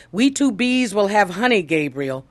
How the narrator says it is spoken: Pearl exclaimed

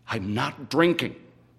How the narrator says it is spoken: Gene says firmly

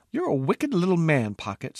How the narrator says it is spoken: said Squeak, waves of freckles riding o'er her shy smile

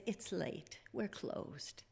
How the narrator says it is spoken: Sighing, Miss Adams said

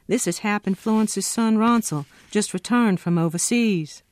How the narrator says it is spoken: I called out to Henry

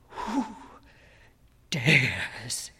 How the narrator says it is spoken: demanded hoarsely

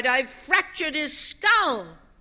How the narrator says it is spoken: the man cried

